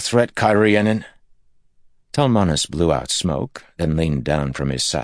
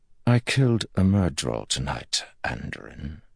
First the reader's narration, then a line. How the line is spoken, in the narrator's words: he said softly